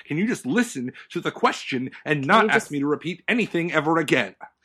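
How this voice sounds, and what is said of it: Yelling angrily. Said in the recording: “sorry for yelling”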